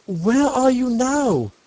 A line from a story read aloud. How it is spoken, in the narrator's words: called out the doctor